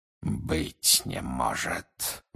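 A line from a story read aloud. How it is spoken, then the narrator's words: Breathless exhale. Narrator (Russian): выдохнул он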